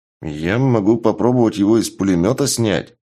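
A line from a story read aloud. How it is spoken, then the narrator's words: Unsure hesitant suggestion. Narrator (Russian): неуверенным голосом предложил Шуст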